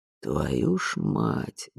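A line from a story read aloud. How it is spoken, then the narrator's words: Muttering. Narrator (Russian): бормотал кто-то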